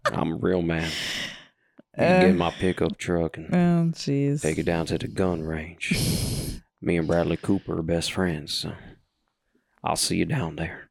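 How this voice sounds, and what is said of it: Put-on Texas drawl. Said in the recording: “you had a little drawl, Texas drawl ... A Texas drawl.”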